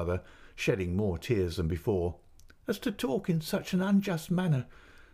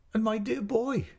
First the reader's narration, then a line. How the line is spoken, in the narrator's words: cried my mother